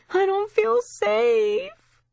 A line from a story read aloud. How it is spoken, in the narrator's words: The brunette girl wailing